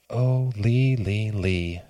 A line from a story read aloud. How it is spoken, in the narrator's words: she whispered